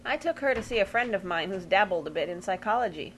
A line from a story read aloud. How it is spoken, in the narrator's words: Uncle Parker said